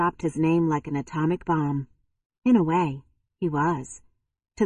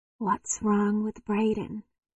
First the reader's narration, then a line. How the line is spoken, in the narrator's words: she asked softly